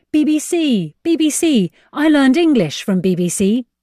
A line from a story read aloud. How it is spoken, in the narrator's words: a young man emerged over a sand dune shouting